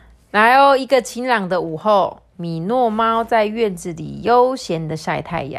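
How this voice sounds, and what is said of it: Usual voice. Nothing is said of it.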